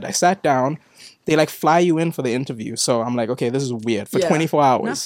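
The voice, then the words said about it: South African accent. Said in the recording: “It's the accent. ... a bunch of South Africans”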